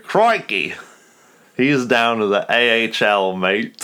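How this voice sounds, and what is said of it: Put-on accent, drifts at end. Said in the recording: “you said in one accent... Got pretty close. I almost drifted at the end.”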